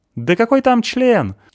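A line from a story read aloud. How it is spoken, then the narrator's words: Woman shouting out. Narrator (Russian): выкрикнула с места какая-то женщина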